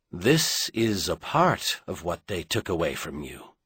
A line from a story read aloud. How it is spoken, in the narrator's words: Merlin corrected gently